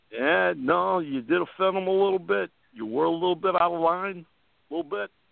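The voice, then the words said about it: Italian accent imitation. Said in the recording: “that Italian accent”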